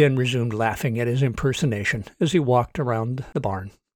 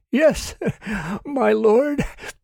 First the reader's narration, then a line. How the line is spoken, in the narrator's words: The man choked down his laugh long enough to say